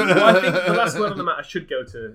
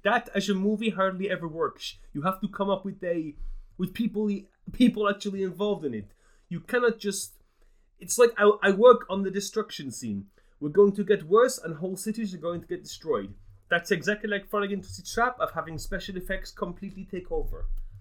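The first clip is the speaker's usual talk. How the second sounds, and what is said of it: Shaky impression of Jan de Bont's accent. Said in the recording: “Jan de Bont himself ... I've forgotten how I did the accent now. ... I don't think you ever really had a strong hold on it”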